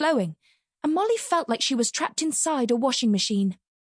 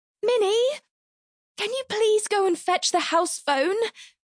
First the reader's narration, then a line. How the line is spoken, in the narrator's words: Mum asked in a strangled voice, as she accidentally swallowed another mouthful of manky dishwater